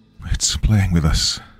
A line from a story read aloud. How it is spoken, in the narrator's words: Morales muttered, her voice tight